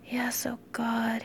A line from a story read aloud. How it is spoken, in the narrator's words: he whispered